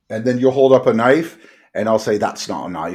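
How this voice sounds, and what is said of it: Bad put-on Australian accent. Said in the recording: “the worst Australian accent ever, by the way. ... No, the one I just did.”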